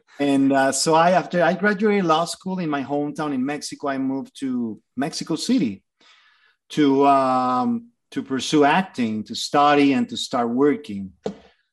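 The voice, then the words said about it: Mexican-accented English. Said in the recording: “I'm from Mexico. You can hear it in the accent, probably.”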